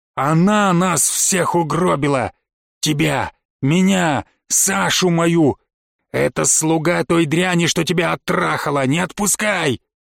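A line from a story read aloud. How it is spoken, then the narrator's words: Growling inner voice. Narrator (Russian): Что-то зарычало во мне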